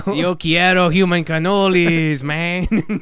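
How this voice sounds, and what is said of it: Imitates the Taco Bell dog. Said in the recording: “good Taco Bell impersonation”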